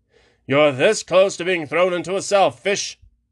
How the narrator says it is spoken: the captain said irritably

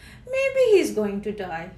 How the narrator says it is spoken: chirped a blackbird

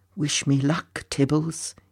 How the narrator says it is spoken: he whispered under his breath

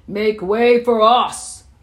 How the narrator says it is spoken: bellowed

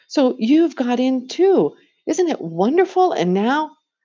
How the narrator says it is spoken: she cried

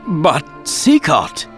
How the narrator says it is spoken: Raoul spluttered

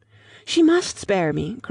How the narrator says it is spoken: cried Lucy, in growing excitement

